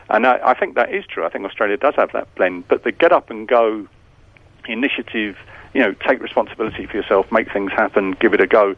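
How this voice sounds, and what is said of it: British accent. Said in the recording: “as you can tell from my accent, I was born in Britain”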